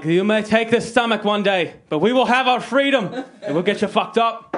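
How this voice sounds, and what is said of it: Put-on accent. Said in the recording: “I don't know what accent that was. It was close.”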